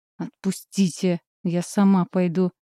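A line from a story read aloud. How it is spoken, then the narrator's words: Forced through teeth. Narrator (Russian): Выдавливаю сквозь зубы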